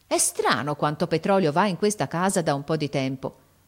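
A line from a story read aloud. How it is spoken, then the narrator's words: Exclamation. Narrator (Italian): uscì in questa esclamazione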